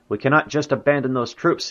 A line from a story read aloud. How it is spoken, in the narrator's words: he exclaimed